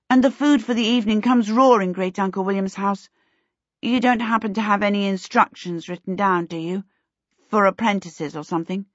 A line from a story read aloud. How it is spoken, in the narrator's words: she blurted out